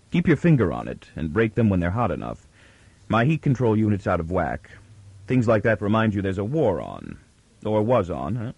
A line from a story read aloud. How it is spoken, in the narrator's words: His quick words had a jovial content, but were said in anything but a jovial tone